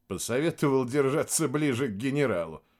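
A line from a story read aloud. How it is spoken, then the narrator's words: Laughing. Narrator (Russian): рассмеялся майор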